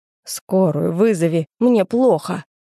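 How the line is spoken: Hoarse rasping man. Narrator (Russian): прохрипел мужик

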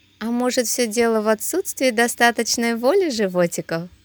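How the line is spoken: Laughing. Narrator (Russian): засмеялась Анастасия

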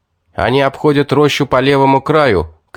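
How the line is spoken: Shouted. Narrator (Russian): крикнул

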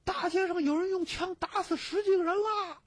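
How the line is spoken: Someone shouting. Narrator (Chinese): 巷中有人喊

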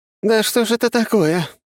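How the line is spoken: Grumbling female voice. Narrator (Russian): проворчала сущность женским голосом

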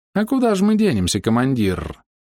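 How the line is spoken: Purring fox voice. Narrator (Russian): промурлыкала лисичка

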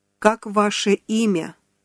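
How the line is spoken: Plain. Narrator (Russian): спросила она

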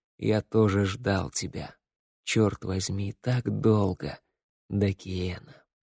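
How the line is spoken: Whisper in the ear. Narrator (Russian): Парень прошептал на ухо

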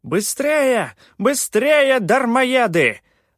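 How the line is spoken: Shrill yelling. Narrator (Russian): орал своим визгливым голосом Рейкар

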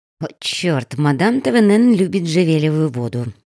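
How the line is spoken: Muttered. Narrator (Russian): пробормотала она

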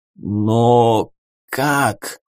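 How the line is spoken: Hoarse bleating. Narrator (Russian): хрипло проблеял адмирал

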